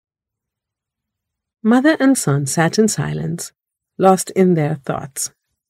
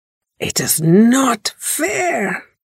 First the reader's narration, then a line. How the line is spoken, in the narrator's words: the little boy said hoarsely